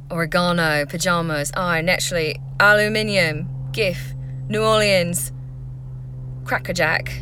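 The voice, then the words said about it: Put-on Essex accent. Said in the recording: “I always go New Zealand when I say naturally. But that's not the accent I'm trying to do... Whenever I do Essex, it kind of like wants to go that way... So let me go back to Essex.”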